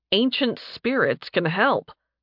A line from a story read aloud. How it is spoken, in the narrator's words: Nathan said dryly